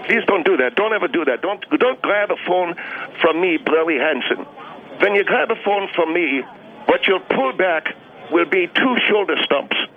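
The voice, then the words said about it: Pseudo Alsace-Lorraine accent. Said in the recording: “your pseudo Alsace Lorraine accent ... I earned that accent”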